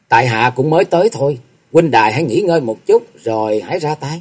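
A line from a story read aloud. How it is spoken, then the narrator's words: Smiling speech. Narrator (Vietnamese): mỉm cười nói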